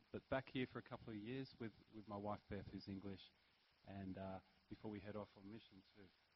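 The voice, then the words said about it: Australian accent. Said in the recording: “You can probably tell by my accent, I'm Australian.”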